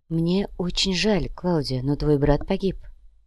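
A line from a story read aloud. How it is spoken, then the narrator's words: Calm. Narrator (Russian): спокойно произнесла Яна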